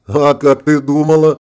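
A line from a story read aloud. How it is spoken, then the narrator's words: Laughing. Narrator (Russian): засмеялся Конти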